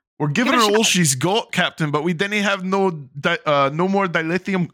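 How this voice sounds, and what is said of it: Attempted Scottish accent impression. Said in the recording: “I can't do the accent, but I know what it looks like written in Scots ... You're pretty good at that stuff. ... I can't do it because, like, I can't do the L ... you're close.”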